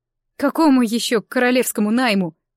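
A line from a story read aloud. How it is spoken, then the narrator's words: Snorting scoff. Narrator (Russian): фыркнула я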